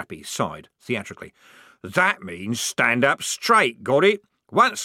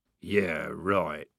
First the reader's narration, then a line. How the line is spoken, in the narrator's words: mumbled Strappy